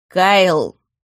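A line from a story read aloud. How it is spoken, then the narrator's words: Growled. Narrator (Russian): рыкнул Харн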